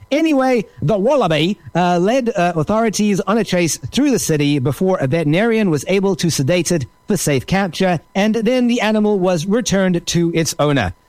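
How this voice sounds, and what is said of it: Put-on Australian accent. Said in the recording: “I have done my best to create an Australian accent.”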